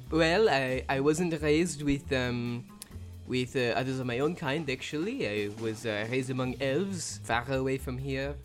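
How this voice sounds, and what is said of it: Put-on French-sounding fantasy accent. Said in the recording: “which is why I speak with this accent. It's actually elven, a certain kind of elven. ... France. We'll just call it France. It's the French region.”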